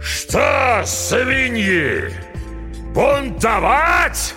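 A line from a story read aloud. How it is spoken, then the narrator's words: Roar. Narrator (Russian): взревел Смирягин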